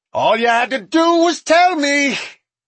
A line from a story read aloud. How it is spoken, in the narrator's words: Smoke screamed